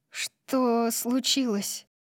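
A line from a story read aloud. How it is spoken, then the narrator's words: Muttering. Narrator (Russian): пробормотала я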